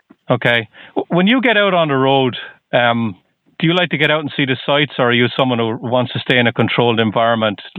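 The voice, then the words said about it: Irish accent. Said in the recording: “you can probably tell from my accent. I'm from Ireland.”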